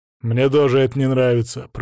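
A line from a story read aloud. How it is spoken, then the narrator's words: Grumbling. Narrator (Russian): проворчал Перувит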